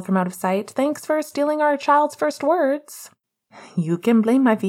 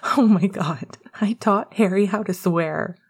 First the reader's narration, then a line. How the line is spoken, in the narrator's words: Remus wheezed